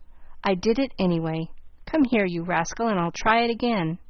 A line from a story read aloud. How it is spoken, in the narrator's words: saying with a laugh